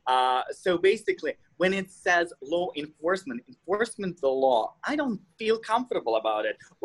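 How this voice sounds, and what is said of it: Russian accent. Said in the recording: “I'm Russian. I'm an immigrant, so deal with my accent.”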